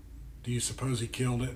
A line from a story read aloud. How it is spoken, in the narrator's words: Becca whispered to me